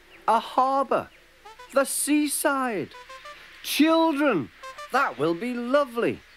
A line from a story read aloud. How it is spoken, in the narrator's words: exclaimed Trevor happily